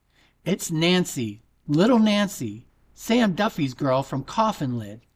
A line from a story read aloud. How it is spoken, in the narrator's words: Mick cried with a sob in his brawny throat